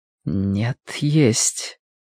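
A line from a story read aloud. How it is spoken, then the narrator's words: Quiet. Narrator (Russian): тихо ответила она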